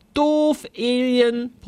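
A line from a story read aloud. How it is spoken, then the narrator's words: Bellowed. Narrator (German): brüllte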